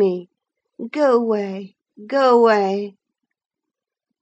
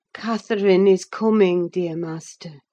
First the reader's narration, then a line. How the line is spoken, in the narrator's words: I whispered